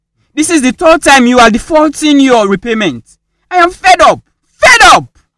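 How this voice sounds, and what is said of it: Angry shouting. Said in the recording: “Why are you shouting”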